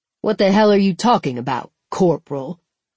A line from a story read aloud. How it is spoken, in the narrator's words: Apone snapped, emphasizing Khan's rank